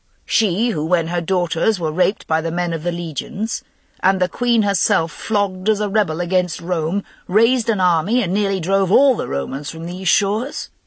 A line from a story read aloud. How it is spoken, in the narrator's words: Guinevere said bitterly